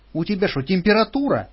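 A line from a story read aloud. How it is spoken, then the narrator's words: Exclaiming. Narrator (Russian): воскликнула Лиля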